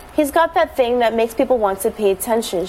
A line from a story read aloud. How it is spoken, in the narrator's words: she said